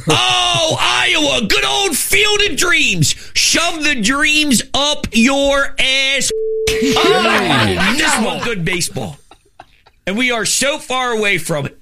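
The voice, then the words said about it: Very strong Philadelphia accent. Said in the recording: “It's the strongest Philly accent I think I've ever heard ... that working class Philly”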